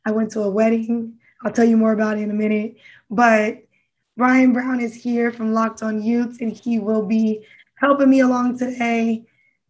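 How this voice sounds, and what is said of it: Very raspy voice. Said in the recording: “I have a very, very raspy voice ... my struggle of a voice”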